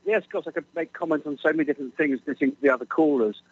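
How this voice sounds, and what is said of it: British English accent. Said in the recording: “You can tell by my accent I'm across the pond.”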